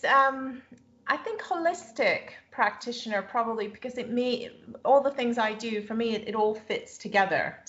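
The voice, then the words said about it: Slight North American accent. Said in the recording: “I can detect a bit of a North American accent in there.”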